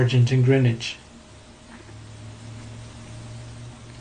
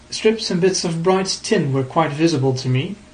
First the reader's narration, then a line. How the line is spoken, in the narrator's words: he said